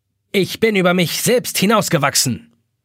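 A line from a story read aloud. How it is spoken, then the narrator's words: Barking. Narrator (German): bellt die Taschenuhr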